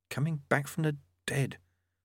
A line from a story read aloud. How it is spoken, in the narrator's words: Lobsang murmured